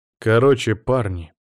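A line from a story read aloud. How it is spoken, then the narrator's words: Serious announcement. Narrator (Russian): серьезным тоном объявил я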